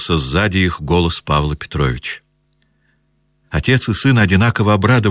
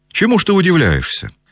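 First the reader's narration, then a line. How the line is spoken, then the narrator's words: Cheerful. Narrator (Russian): весело заговорил Николай Петрович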